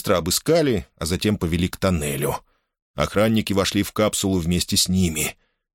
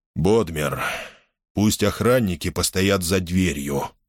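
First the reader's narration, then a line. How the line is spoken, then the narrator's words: Flat command. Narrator (Russian): велел он советнику невыразительным тоном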